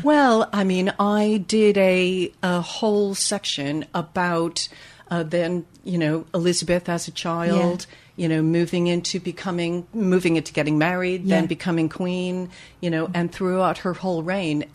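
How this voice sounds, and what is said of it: American accent, upstate New York. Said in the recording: “you might be able to tell by my accent ... From upstate New York ... your accent's still there”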